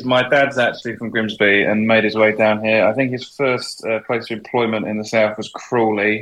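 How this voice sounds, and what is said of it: Slightly London-sounding English accent. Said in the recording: “that accent. You sounds a bit Londonish, like mine.”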